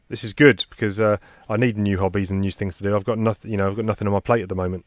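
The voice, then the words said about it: Sarcastic tone. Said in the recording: “That was sarcasm,”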